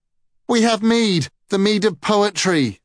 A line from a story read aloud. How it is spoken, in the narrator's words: sputtered Gala as the water brushed his lips